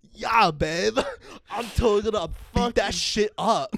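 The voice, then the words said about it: Put-on surfer dude accent. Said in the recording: “Fucking server accent, bro. ... do not tell your man to act like a surfer”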